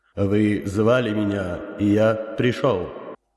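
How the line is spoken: Old man's powerful inhuman voice. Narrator (Russian): Старец мощным, нечеловеческим голосом произнес

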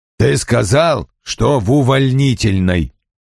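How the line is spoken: Growled. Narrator (Russian): прорычал он

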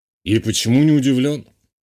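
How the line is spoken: Skeptical snort. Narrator (Russian): хмыкнул полковник

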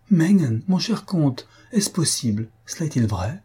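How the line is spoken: Countess exclaiming. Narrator (French): s'écria la comtesse

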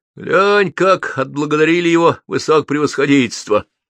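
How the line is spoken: Laughing passerby remark. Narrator (Russian): смеясь, заметил кто-то из прохожих

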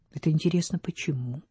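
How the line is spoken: Calm question. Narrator (Russian): спокойно спросил Вальдемар

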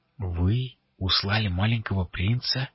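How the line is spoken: Barely audible breath. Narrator (Russian): чуть слышно выдохнула Адарана

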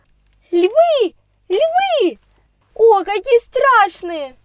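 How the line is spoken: Frightened shout. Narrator (Russian): Кричала она снова

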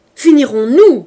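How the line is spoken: Furious shout. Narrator (French): cria Javert furieux

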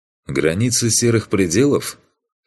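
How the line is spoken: Snorting hmph. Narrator (Russian): хмыкнул я

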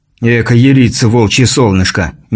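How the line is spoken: Displeased sigh. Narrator (Russian): недовольно вздохнул Антон

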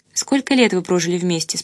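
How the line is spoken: Plain. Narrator (Russian): спросила я

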